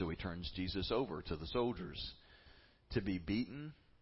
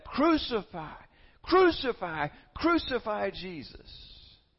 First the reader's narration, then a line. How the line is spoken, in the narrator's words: the crowd shouts back